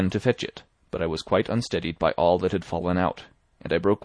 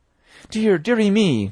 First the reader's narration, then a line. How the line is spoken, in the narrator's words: cried my mother